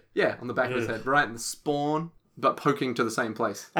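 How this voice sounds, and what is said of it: Heavy Australian accent. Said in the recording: “he was saying spine with a heavy Australian accent”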